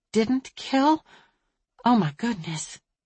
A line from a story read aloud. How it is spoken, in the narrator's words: Lizzie had gasped